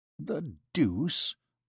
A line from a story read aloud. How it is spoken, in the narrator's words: muttered Jehan in his beard